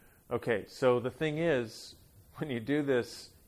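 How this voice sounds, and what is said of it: Usual voice. Nothing is said of it.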